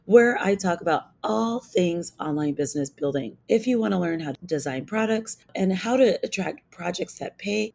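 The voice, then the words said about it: Hoarse, strained voice. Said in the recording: “I've totally lost my voice”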